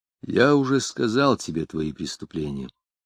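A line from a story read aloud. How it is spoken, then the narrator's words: Plain. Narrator (Russian): ответил Захарьев Авинов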